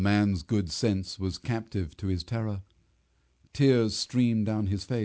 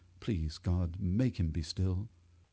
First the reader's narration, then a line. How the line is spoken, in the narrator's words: muttered